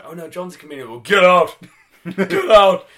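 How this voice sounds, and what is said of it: Imitates another person's deep voice. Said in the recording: “This deep voice that I would later recognise as the voice of the creator wrestler in SmackDown vs. Raw ... voice 5, as I recall, because it got significantly got deeper”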